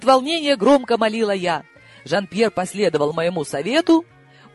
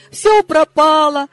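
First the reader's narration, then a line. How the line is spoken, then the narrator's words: Despairing wail. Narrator (Russian): в отчаянии взвыла я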